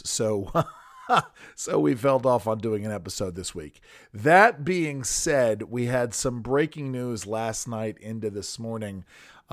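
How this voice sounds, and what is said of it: Hoarse, fading voice. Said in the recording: “as you can tell, maybe able to tell, I am losing my voice.”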